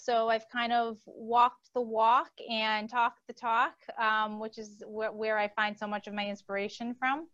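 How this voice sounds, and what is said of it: Boston accent. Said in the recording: “I am originally from Boston. So you're going to hear an accent squeak in probably every few words... it's not New York... it's Boston... the Boston accent”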